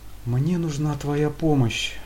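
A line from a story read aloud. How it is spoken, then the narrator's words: Forced out reluctantly. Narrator (Russian): наконец выдавил из себя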